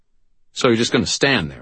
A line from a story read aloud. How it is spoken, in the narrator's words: I snapped